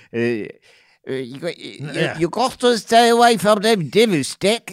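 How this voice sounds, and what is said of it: Poor old-person voice impression. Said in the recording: “the old people impersonation ... I get the old part, but I throw something else in every time ... you gave her a speech impediment at the very end ... a little bit of your Michael Caine, which is not a good impression either”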